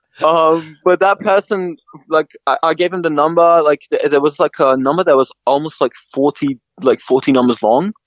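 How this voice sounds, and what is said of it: Foreign accent with American tinge. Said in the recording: “you've got an almost American tinge on your accent too.”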